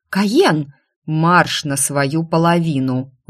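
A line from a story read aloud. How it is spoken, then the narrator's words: Sudden growl. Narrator (Russian): внезапно рыкнул он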